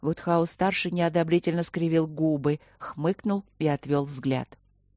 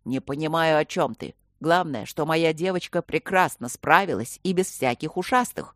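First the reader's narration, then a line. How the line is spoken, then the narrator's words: Booming. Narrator (Russian): прогремел папа Горни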